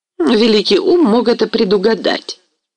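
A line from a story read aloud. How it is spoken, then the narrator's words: Irritated objection. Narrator (Russian): возразила раздраженно пани Гетманова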